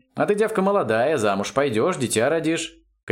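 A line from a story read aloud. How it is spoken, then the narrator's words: Categorical declaration. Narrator (Russian): категоричным тоном заявила Дарисса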